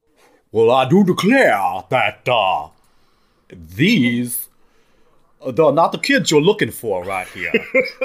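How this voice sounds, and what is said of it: Grown-up sounding character voice. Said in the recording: “He sounds like a grown-up.”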